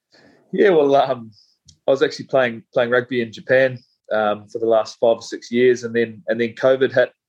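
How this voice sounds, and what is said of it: New Zealand accent. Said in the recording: “So you're a Kiwi. Obviously, the accent gives away. You're not from New Jersey or New York.”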